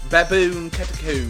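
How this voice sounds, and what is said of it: Poor put-on English accent. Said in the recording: “try and give an English accent, it's pronounced catacomb ... We lost all our English listeners ... The English accent test right there, and no, it doesn't work”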